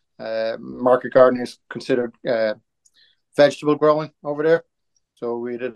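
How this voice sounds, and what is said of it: Irish accent. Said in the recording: “our listeners can probably tell by your voice, but you're from Ireland”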